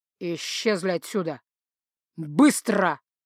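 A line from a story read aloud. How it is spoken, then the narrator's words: Icy, disgusted, cutting in. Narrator (Russian): Оборвав его, процедил Дан леднючим, полным брезгливости тоном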